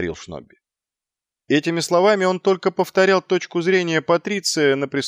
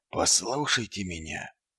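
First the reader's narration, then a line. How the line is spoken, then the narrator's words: Barely audible. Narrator (Russian): едва слышно произнес Ваймс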